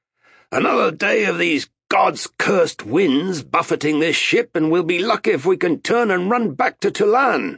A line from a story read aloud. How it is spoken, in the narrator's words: When the ship heeled, he shouted to Arutha